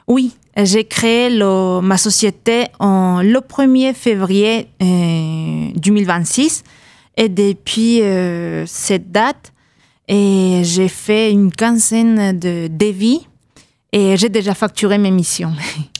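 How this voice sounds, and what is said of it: Peruvian accent speaking French. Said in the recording (French): “On entend un accent dans ce que vous nous dites ... Je suis péruvienne”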